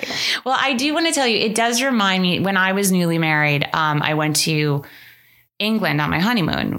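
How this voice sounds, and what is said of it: Usual voice. Nothing is said of it.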